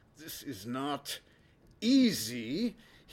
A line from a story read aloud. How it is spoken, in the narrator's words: he grunts